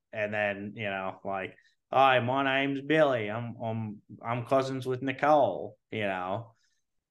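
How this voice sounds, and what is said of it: Light put-on Australian accent. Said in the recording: “I have to do like a really light Australian accent. ... that impression”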